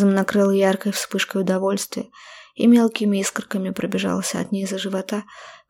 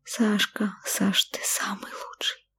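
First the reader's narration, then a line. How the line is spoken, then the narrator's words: Sobbing whisper. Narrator (Russian): шепнула, точнее, всхлипнула я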